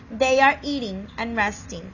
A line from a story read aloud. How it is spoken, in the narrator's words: the beast said